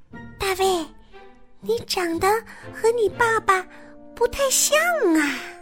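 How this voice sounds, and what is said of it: Very quiet, hushed voice. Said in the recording (Chinese): “用很小很小的声音说”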